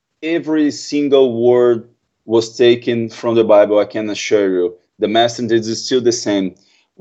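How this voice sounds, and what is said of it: Brazilian Portuguese accent, easy to understand. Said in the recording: “my terrible accent ... Your accent is very easy to understand.”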